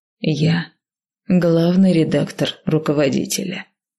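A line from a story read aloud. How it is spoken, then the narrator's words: Quiet. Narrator (Russian): тихо произнесла я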